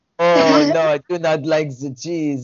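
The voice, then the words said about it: Mock thick French accent. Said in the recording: “the French accent's so dominant ... It's such a thick, like”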